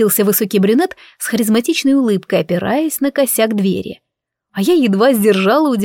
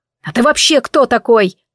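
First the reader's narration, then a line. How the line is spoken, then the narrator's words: Angry question. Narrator (Russian): зло спросил Анро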